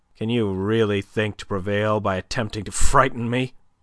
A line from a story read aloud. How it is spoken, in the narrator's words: he asked, almost sneered